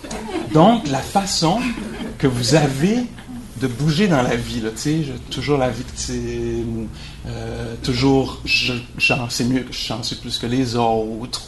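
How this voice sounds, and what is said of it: Strong Québécois accent. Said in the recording (French): “mon gros accent québécois”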